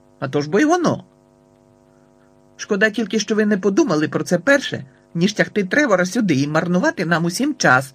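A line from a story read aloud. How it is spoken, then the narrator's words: Barked. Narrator (Ukrainian): гаркнув тато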